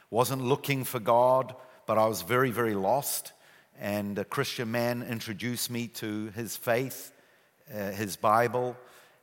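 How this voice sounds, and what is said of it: New Zealand accent. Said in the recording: “I still have my New Zealand accent.”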